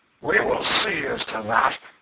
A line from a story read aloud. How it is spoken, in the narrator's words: exclaimed John Canty